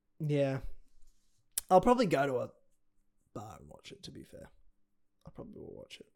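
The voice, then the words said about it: Australian accent. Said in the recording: “he'd hear my accent and go, stay away! He's frightened of Australians”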